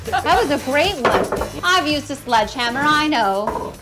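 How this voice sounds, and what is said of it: Old-fashioned 1930s lady voice. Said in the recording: “I don't know why I'm talking like a lady from the 1930s.”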